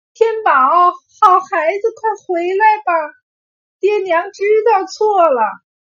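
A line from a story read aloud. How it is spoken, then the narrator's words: Desperate calling out. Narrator (Chinese): 大友和腊梅连忙往外跑，对着金光的小孩喊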